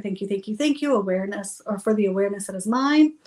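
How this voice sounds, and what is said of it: Speaking very fast. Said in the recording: “I'm saying it very fast here on the podcast, but I would more slowly do that”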